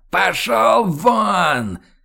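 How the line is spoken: Furious yelling. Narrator (Russian): Хьюго побагровел и заорал так, что перепуганные танцовщицы замерли на подиумах, а музыка оборвалась и умолкла

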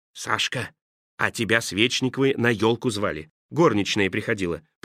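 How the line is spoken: Whisper. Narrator (Russian): прошептал он

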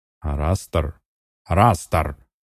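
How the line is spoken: Irritated bark. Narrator (Russian): рявкнул Балрог, видя, что его опять игнорируют

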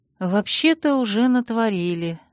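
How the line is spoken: Sighing. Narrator (Russian): вздохнув, проговорила я

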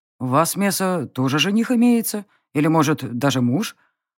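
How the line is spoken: Tired question. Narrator (Russian): Устало поинтересовались

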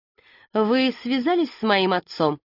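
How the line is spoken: Restrained, suppressing irritation. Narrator (Russian): Леся постаралась, чтобы ее голос не звучал раздраженно

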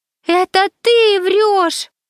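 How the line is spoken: Screaming back. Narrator (Russian): завопила в ответ Миша

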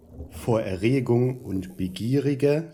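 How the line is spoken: Plain. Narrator (German): sagte ich

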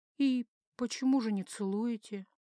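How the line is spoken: Dizzy, strange-sounding whisper. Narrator (Russian): прошептала, с трудом узнавая свой собственный голос и чувствуя, как начинает кружиться голова

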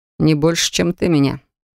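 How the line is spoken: Snorting reply. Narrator (Russian): в ответ хмыкнул

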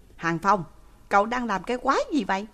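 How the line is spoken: Sharp shout. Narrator (Vietnamese): Lãnh Kính Hàn vừa quát một tiếng

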